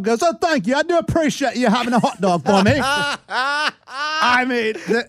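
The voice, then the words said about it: Put-on English accent. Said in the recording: “enough of the English accent.”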